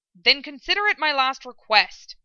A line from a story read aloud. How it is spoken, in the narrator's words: Ed snapped